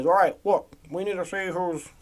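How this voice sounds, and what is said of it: Imitates another person's voice. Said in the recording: “my Obama impression”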